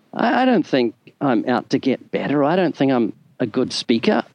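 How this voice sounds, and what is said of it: Non-American accent. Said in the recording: “people listen to my accent because they enjoy it in the States”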